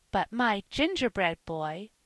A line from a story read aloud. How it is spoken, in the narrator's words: cried Phronsie